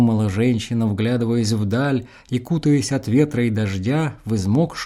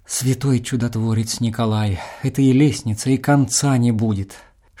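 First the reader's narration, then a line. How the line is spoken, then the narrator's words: Whispered. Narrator (Russian): шептала молодая женщина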